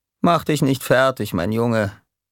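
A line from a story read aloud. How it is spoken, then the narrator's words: Calm. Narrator (German): sagte ruhig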